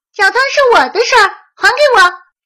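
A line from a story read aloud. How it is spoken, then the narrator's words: Squealing. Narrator (Chinese): 松鼠尖叫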